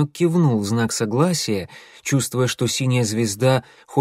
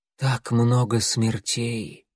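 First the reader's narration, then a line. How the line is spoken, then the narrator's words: Sighing. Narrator (Russian): вздохнула она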